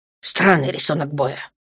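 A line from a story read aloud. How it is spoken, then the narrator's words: Grumble. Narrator (Russian): проворчал Ранс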